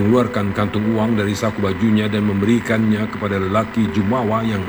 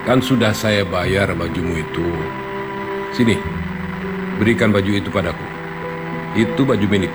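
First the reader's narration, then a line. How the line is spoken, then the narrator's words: Calm young man. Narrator (Indonesian): Dengan tenang lelaki muda itu berkata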